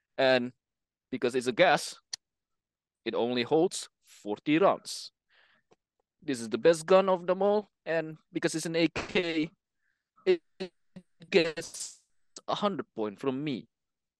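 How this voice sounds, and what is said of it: Put-on Russian accent. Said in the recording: “The accent worked nice... It's very persuasive... definitely buy it from a Russian”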